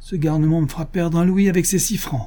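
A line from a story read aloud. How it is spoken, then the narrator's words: Exclaiming. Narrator (French): s'écria-t-il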